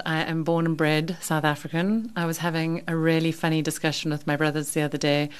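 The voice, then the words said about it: English-sounding accent. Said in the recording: “I've got such an English accent”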